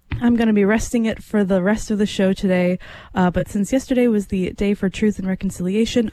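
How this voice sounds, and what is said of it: Hoarse, worn-out voice. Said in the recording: “I don't know if you can tell by listening, but my voice is pretty much shot”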